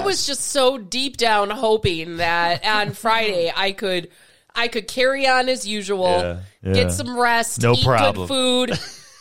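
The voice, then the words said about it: Voice of someone with a cold. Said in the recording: “I have a cold.”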